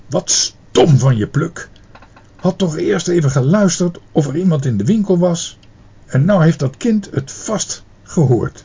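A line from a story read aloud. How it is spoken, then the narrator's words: Angry. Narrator (Dutch): meneer Pen zei boos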